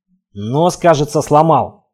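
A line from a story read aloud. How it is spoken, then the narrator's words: Nasal unsteady complaint. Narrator (Russian): гнусаво наябедничал, едва сдерживающийся на ногах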